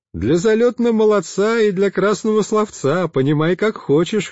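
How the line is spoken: Laughing loudly. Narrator (Russian): хохотали

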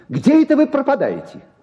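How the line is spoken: Shouted. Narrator (Russian): крикнул он

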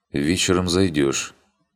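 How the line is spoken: Quiet, slightly hoarse voice. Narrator (Russian): Чуть севшим голосом негромко произнес

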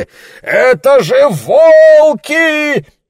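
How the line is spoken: Yelling. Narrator (Russian): вопил Ларри

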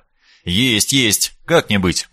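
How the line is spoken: Mumbling. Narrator (Russian): пробормотал я

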